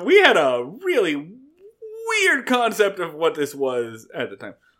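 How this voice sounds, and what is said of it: Usual voice. Nothing is said of it.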